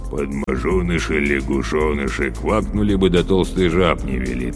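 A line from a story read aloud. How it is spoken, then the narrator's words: Muttered. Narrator (Russian): пробормотал Зунель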